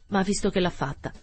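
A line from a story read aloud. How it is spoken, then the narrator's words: Cold. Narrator (Italian): continuò freddamente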